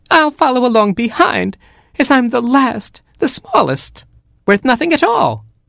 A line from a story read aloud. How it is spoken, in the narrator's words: whimpered Baby Chick